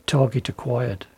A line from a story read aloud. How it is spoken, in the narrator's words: he whispered